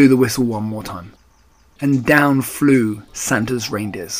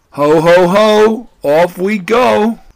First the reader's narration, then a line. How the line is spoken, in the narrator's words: cried Santa